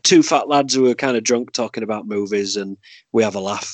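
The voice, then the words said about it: Yorkshire accent. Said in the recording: “me with the Yorkshire accent”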